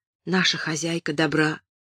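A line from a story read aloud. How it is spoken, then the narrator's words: Whispered. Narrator (Russian): Молли шепнула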